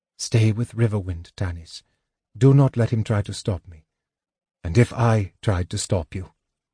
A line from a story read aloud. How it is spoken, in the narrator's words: Tanis asked gently